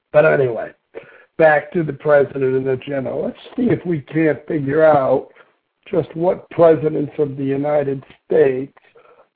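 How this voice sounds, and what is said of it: Rough, sick-sounding voice. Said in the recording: “I apologize for my voice a little bit. I've had a cold”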